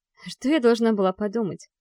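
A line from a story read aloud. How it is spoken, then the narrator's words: Sharp, pained. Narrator (Russian): Говорю резко, снова ощущая ту боль в сердце, что и тогда, когда улетала с Капри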